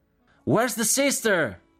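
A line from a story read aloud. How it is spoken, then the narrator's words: Several voices shouting. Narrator (Italian): gridarono alcune voci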